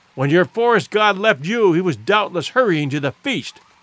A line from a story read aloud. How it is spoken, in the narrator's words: in sudden brutality that was as unlike Clayton as courteous consideration is unlike an ape, he blurted out